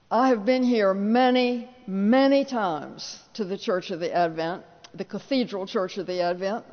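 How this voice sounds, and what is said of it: Tidewater Virginia Southern accent. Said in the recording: “I still have my Tidewater, Virginia accent, so you can locate me”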